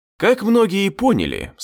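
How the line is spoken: Calm. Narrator (Russian): спокойно произнес я

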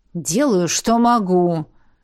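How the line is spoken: Resigned groan. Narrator (Russian): обреченно простонал некромант

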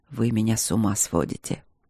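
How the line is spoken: Hoarse whisper. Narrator (Russian): хрипло шепнул он мне

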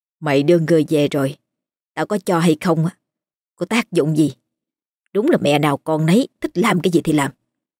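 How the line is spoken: Grumbling under breath. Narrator (Vietnamese): Bà Hai lầm bầm trong bụng

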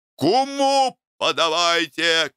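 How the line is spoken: Shouting. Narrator (Russian): кричал Иван Семенович

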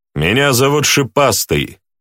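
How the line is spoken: Loud but not shouting. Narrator (Russian): сказал громко, но не стараясь кричать

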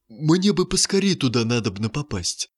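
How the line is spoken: Anxious muttering. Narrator (Russian): взволнованно пробормотал Водяной

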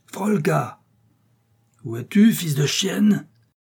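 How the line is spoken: Terrible thundering voice. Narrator (French): tonna une voix terrible

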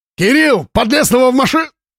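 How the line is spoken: Cut-off shout. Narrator (Russian): крикнул было

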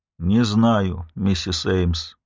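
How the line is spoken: Tired. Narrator (Russian): произнес он устало

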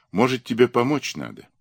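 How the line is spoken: Uncertain question. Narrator (Russian): спросила неуверенно

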